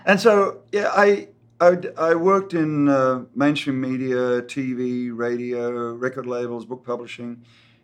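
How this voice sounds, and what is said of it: Slight Australian accent. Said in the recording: “do I still sound Australian?... Or a little bit. Yeah.”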